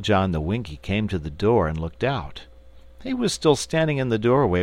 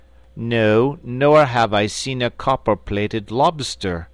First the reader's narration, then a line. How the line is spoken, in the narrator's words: replied Littlejohn in an equally haughty tone